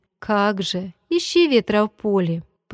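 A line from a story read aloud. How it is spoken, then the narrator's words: Laughing. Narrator (Russian): посмеялся я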